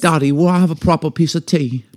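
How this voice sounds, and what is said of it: Put-on English accent, girlish. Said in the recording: “listen to those two little girls talk like this the entire time ... You go from English to like”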